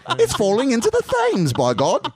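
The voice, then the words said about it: Bad put-on British accent. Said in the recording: “That's a horrible British accent, I know.”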